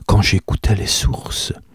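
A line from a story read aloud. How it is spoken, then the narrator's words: Murmuring. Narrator (French): murmura Aseline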